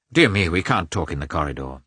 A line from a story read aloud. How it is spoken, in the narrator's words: said Lievin, looking crossly